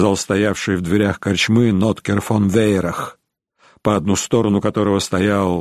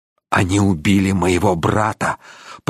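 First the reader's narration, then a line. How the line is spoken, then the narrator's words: Hissing. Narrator (Russian): прошипел Рейнован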